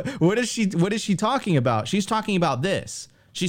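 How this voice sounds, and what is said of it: Usual voice. Nothing is said of it.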